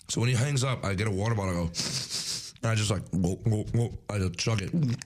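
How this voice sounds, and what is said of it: Hoarse, worn-out voice. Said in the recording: “My voice is gone from, still moving on from bid day.”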